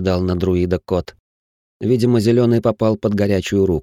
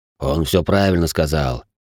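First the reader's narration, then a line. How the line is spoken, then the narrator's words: Deep-voiced elephant. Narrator (Russian): пробасил слон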